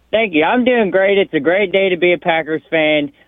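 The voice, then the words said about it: Speaks with a regional accent. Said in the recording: “Love your accent.”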